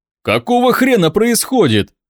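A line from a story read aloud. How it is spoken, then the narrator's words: Frantic shout. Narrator (Russian): выкрикнул Дима, бешено вращая глазами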